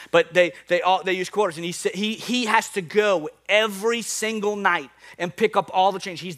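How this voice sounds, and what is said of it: New Orleans accent. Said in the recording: “my New Orleans accent's”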